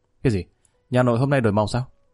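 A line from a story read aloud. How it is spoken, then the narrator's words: Smiling speech. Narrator (Vietnamese): Lý Kỳ mỉm cười nói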